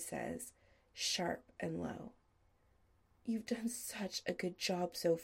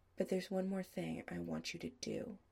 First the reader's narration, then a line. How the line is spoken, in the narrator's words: Adam says